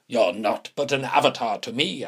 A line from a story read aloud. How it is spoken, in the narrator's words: I spat back